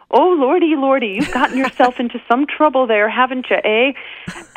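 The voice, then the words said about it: Put-on Canadian accent. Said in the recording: “I don't know if I can do a Canadian accent justice”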